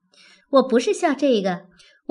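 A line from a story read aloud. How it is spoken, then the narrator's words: Laughing. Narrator (Chinese): 小红笑道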